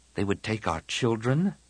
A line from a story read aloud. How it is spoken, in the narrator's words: Tian murmured